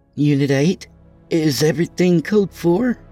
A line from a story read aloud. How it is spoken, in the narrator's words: Sherry asked nervously